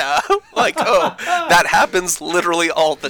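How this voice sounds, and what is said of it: Usual voice. Nothing is said of it.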